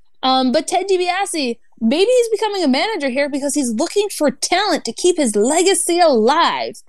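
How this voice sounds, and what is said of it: Slight Southern American accent. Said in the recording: “You hear my southern accent coming out a little bit here, too? ... Yep, I'm hearing it.”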